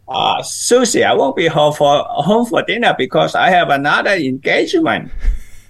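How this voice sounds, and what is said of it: Imitates another person's voice. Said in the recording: “Do my voice ... Very good ... Do I sound like him? ... pretty close, but no cigar”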